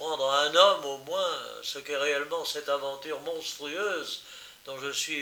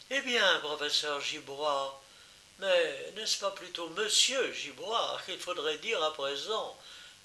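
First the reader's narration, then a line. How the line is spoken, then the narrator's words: Bitter murmur. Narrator (French): murmura-t-elle avec son sourire amer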